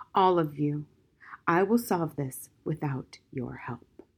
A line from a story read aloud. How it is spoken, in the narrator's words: he said softly